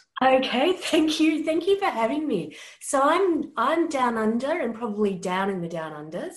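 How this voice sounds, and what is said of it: Unusual non-American accent. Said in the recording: “not from Brooklyn, New York, with an unusual accent”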